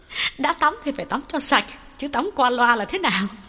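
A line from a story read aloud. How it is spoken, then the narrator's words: Giggling. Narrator (Vietnamese): Duyên cười khúc khích bảo Hậu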